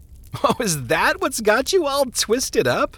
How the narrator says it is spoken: The minister laughed

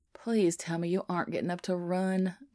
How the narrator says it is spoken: Biddy groans

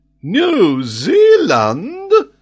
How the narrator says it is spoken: cried Paganel

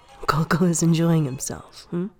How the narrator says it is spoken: Wachung laughs

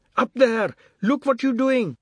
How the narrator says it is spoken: Someone shouted from below

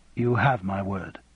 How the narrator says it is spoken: said Raymond quietly

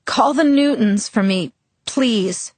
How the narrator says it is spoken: I instructed hoarsely

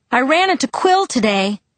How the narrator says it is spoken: I yelled

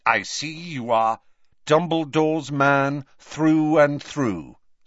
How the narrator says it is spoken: said Harry

